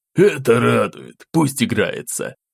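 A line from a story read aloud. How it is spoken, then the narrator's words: Younger brother's relieved exhale. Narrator (Russian): заметно выдохнул младший из братьев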